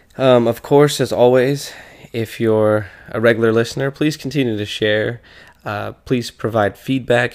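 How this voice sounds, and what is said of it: Voice affected by illness. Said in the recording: “Pardon my voice. I've been a little under the weather this week”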